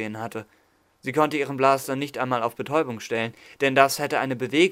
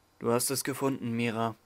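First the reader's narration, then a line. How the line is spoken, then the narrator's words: Soft speech. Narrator (German): sagte er leise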